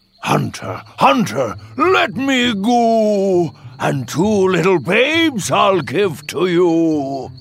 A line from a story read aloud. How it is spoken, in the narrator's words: the wolf cried out